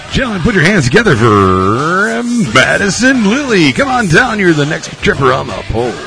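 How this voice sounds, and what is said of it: Announcer voice. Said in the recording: “Get ready for your announcer voice”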